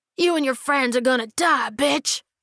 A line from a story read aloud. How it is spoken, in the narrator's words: he yelled